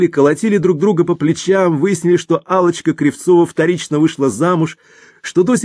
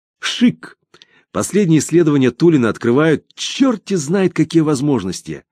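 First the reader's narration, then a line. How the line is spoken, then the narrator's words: Mocking. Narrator (Russian): высмеял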